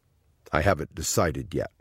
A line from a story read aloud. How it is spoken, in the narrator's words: Sparky said